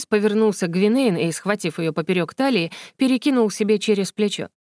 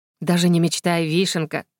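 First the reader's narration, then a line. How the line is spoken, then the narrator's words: Calm reply. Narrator (Russian): Спокойно ответил он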